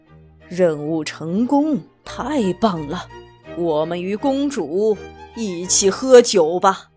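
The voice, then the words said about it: Quiet muttering. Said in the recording (Chinese): “小声嘟囔着”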